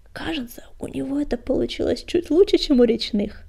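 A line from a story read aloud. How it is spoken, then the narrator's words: Whispered aside. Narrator (Russian): прошептал Клубок, наклоняясь к приятелю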